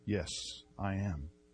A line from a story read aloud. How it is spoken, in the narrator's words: Luther answered very quietly